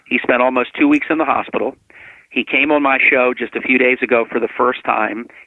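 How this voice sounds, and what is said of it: Passionate, intense speaking voice. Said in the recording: “you can tell by my voice on your show today, I am very passionate about this”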